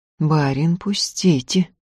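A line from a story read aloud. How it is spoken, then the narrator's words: Muffled threatening. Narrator (Russian): глухо с угрозой сказала Устинья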